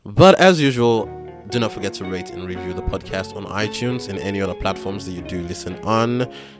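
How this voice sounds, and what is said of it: Sick-sounding voice. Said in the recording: “I have been pretty sick, as you can probably tell from my voice.”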